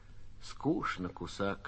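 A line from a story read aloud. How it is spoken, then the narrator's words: Quiet. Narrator (Russian): тихо проронила Лёля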